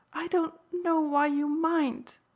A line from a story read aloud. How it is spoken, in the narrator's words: she thereupon wailed with extravagance